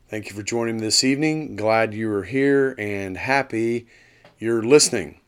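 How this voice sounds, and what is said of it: Hoarse, scratchy voice. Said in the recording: “my voice is a little hoarse today ... bear with me if it squeaks or scratches”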